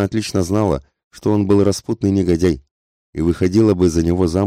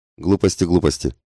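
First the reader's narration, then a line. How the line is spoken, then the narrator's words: Slightly irritated father. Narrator (Russian): произнес ее отец несколько раздраженно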